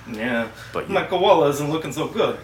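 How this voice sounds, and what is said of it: Rodney Dangerfield impression. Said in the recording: “That was fucking very Rodney Dangerfield.”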